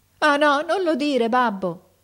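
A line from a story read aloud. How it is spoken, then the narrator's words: Son shouting, bursting into tears. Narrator (Italian): gridò il figliuolo scoppiando in pianto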